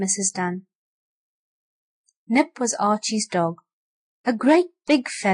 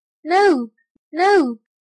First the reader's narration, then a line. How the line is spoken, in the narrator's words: the children cried